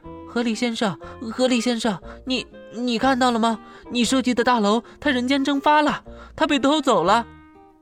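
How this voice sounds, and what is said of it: Trembling voice. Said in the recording (Chinese): “用颤抖的声音说道”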